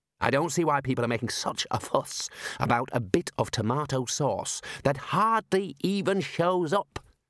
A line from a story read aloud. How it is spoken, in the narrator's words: muttered the Dean